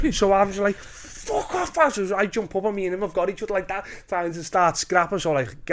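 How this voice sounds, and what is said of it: Usual voice. Nothing is said of it.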